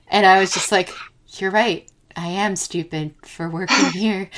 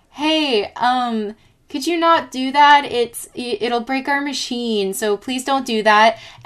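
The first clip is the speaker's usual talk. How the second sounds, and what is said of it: Polite customer service voice. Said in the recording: “my best customer service voice,”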